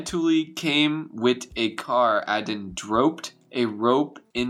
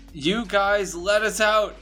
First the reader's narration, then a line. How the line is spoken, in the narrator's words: he yelled